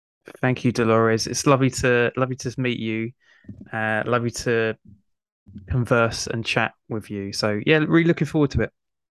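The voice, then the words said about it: British English accent. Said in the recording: “I love your accent. When I studied English, I studied British English”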